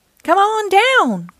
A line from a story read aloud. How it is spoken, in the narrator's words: cried Mater